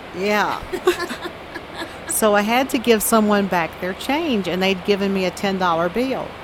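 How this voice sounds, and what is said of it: Southern American accent. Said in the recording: “You're from the South? ... making fun of my accent”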